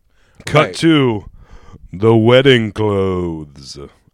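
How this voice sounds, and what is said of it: Otho impression. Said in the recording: “do an Otho impression”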